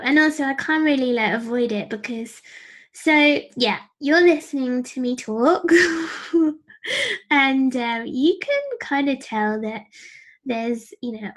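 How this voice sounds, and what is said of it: Young-sounding voice. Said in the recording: “I sound really young, don't I? ... overcoming a huge kind of insecurity about the way I sound”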